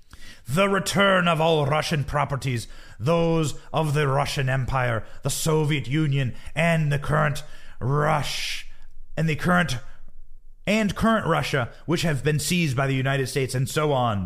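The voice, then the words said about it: Mock Irish-Russian accent. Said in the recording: “my St. Patrick's Day Irish Russian accent there. Got to work on that.”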